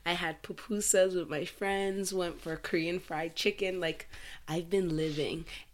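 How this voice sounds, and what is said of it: Froggy, hoarse voice. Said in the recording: “hear it in my voice that it's a little bit like froggy, it's because I also have like a horrible flu”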